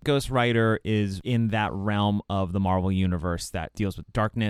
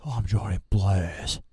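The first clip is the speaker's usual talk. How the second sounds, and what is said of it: Breathy Nicolas Cage impression. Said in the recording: “That's a pretty good impression... That's a very good one... There's a lot of breath... A lot of breath work for Nick Cage.”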